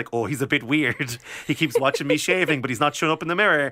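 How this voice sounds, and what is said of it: Irish Monaghan accent. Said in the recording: “That's how he sounds ... accent ... He's from Monaghan”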